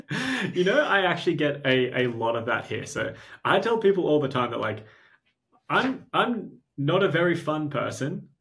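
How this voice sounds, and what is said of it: Australian accent. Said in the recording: “you're Australian and you have a killer accent ... I have an Australian accent”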